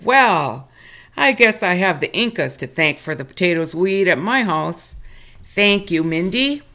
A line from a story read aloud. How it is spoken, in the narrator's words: Berry laughed and said